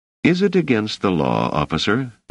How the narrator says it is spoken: asked Selden

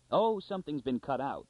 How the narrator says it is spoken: cried Anthor impatiently

